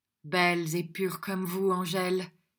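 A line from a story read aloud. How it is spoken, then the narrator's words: Voice vibrating with passion. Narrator (French): dit Don Luis d'une voix vibrante de passion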